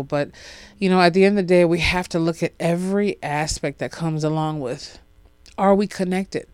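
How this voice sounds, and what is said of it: Congested, sniffly voice recovering from cold. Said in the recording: “I'm still going through trying to get my normal voice back ... My voice is starting to come back and forth. My sniffles are here. You probably can hear them.”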